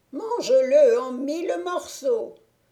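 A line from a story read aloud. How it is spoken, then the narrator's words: Witch shouting. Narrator (French): cria la sorcière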